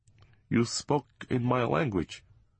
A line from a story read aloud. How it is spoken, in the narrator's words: controlling himself, he said calmly